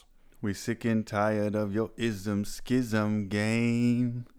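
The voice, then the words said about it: Put-on Jamaican accent. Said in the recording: “I'm working on my Jamaican accent”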